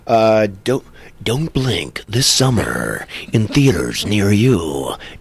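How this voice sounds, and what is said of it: Movie trailer announcer voice. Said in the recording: “It's not John Bailey, the honest trailer voice, but I'm doing my best.”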